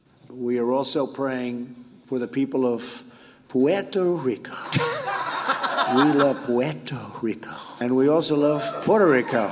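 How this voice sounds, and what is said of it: Trump doing a put-on accent. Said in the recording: “Trump's accent work”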